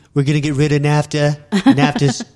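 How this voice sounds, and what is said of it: Imitates another person's voice. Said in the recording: “impression. That was a great impression.”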